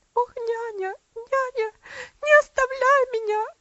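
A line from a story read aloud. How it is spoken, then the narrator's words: Sobbing child's scream. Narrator (Russian): закричала девочка, прижимаясь к ней в конвульсивных рыданиях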